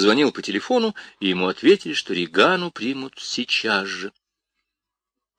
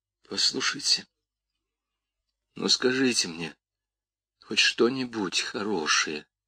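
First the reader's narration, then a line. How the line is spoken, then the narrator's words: Barely audible. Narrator (Russian): еле слышно проговорила Крис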